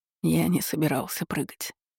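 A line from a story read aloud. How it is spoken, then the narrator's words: Hoarse whisper. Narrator (Russian): хрипло прошептал Велден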